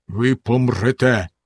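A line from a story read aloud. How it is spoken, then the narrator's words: Stern. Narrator (Ukrainian): суворо сказав він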